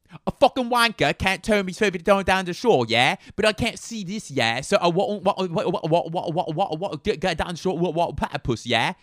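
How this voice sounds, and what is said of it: Put-on British Cockney accent. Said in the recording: “British Cockney ... Okay, Cockney”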